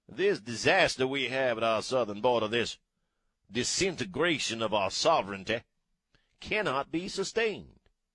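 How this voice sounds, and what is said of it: Thick, slow Southern US accent. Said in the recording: “with a thick southern accent, you ain't saying nothing fast, right? You're verbally moseying ... You're able to enunciate”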